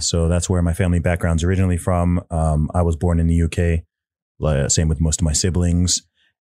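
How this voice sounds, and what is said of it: Mixed accent, not British-sounding. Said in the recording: “For anyone confused by my accent, that's where it comes from... People are always confused when they hear my accent... this guy doesn't sound British”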